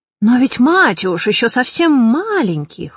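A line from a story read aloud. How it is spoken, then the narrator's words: Exclaimed in chorus. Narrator (Russian): хором воскликнули министры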